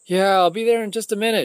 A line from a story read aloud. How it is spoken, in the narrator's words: yelled over her back